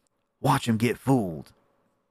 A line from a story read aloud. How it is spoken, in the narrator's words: whispered Neddie